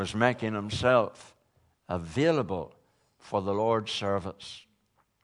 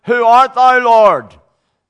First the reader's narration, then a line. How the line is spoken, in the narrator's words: he cried out